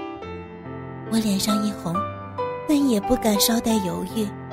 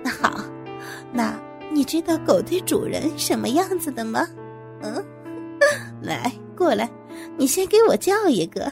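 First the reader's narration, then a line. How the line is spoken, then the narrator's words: Smiling. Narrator (Chinese): 王总笑着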